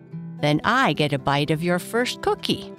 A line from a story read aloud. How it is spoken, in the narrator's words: Papa said, laughing